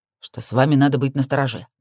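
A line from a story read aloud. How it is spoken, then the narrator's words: Grumbled mutter. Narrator (Russian): наконец буркнул один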